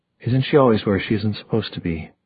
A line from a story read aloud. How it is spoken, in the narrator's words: Magnus said in a reasonable voice